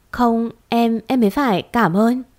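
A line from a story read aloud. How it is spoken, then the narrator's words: Joyful stammering. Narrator (Vietnamese): Tôi vui, vui kinh khủng, lập tức lắp bắp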